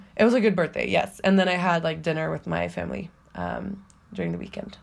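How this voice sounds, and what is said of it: Sick-sounding voice. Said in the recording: “I'm still sick, if you can't tell by my voice ... I've gotten drastically worse again”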